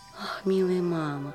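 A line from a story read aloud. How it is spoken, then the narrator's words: Whisper. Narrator (Russian): прошептала Мари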